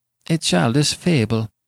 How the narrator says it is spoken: answered Giovanni, nervously starting from his chair

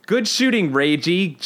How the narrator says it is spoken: Jean Grey shouts

